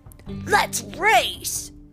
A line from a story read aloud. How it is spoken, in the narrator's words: Cole shouted suddenly